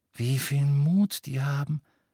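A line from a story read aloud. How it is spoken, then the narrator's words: Admiring sigh. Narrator (German): seufzte Hermine voll Bewunderung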